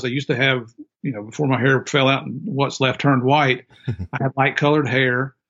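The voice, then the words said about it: American country accent. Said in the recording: “you can hear my country accent”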